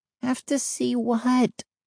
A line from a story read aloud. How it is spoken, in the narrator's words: She groaned